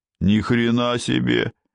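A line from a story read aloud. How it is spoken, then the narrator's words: Displeased grumble. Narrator (Russian): недовольно проворчал Гуняев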